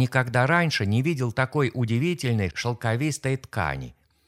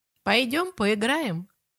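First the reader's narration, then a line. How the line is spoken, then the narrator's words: Playful giggle. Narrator (Russian): предложила она и озорно хихикнула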